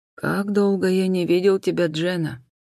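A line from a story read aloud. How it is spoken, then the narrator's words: Quiet. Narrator (Russian): тихо проговорил старший инспектор Ллойд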